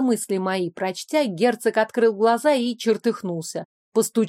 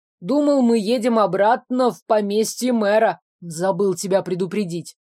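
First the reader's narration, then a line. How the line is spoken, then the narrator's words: Grumbled. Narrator (Russian): проворчал Сирейли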